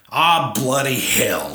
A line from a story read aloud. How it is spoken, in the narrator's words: snapped corgi